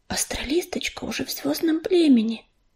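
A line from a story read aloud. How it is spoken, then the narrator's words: Quiet whisper. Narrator (Russian): тихо зашептала пепелица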